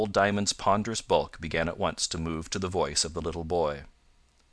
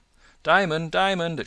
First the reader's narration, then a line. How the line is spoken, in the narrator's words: it cried